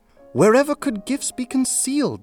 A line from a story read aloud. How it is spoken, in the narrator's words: Sal cried out